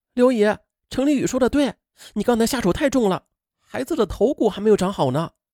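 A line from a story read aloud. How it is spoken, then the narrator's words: Chiming in supportively. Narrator (Chinese): 潘明莹帮腔道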